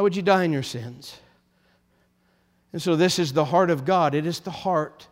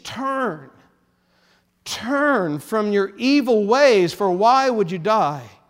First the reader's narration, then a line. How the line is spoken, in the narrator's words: God then pleads